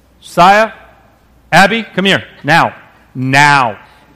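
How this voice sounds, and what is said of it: Stern scolding parent voice. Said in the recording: “my dad voice.”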